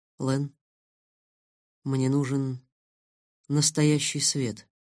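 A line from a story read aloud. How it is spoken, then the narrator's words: Quiet. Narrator (Russian): тихо сказал я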